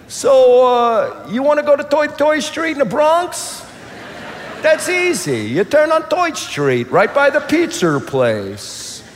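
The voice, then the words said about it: Put-on Brooklyn accent. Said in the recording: “why don't they speak with a Brooklyn accent?”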